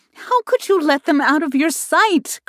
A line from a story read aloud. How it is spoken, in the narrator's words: cried Ida